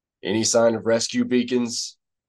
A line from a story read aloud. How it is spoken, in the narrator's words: Han asked